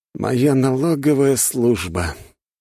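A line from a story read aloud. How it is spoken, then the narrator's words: Sad sigh. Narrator (Russian): грустно вздохнул царь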